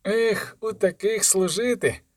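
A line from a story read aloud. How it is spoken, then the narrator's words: Sighing again. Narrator (Ukrainian): знову зітхнув Мелфі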